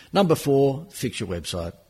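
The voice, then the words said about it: Sarcastic downward tone. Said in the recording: “I'm being sarcastic when I use that downtone”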